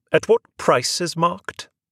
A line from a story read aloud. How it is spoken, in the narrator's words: snapped